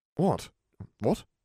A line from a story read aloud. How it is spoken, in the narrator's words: Harry asked sharply